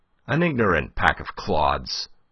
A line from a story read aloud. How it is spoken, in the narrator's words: sneered Leandre